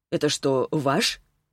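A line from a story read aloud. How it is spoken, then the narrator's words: Plain. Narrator (Russian): спросил Глеб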